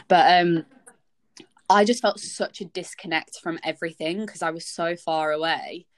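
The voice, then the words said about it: Northern English accent. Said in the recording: “Wow, that was Northern... everyone hearing my accent”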